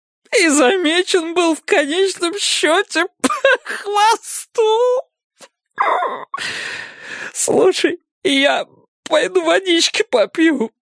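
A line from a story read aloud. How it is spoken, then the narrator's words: Muttering. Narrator (Russian): пробормотал Серега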